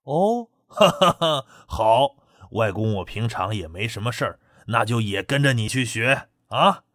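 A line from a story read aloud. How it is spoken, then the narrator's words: Laughing. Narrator (Chinese): 唐青山笑着道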